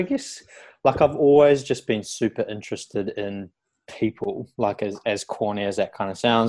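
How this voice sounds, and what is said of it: New Zealand accent. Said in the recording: “I'm from New Zealand originally, which you probably tell by the accent.”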